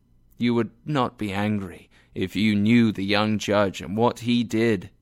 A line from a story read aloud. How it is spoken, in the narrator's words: he said